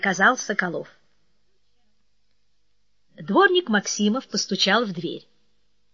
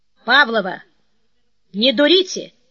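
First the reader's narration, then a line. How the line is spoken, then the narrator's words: Metallic voice. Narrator (Russian): металлическим голосом сказал Соколов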